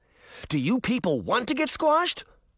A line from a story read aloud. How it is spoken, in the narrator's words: Daphne shouted